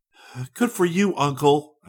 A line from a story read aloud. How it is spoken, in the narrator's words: cried